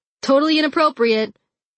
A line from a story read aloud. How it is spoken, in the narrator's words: Jim shouted at them